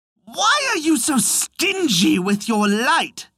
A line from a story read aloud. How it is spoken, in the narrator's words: snapped Raven